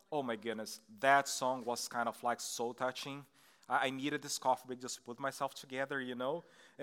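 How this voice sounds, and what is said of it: Brazilian Portuguese accent. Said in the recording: “I'm from Brazil. That's why you're going to have like this weird accent”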